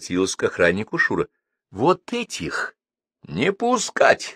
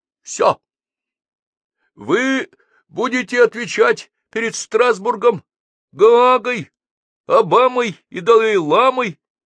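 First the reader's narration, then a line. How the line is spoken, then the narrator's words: Shouted. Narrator (Russian): закричал Паша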